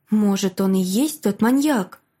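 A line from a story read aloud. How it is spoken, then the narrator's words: Frightened inner whisper. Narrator (Russian): Испуганно прошептал голос в моей голове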